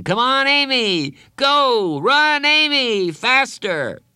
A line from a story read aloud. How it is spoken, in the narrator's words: everyone on his team was screaming